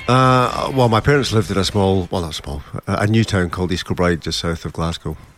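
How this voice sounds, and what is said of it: Softened Scottish accent. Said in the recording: “It's good to see you haven't lost the accent. ... It's softened.”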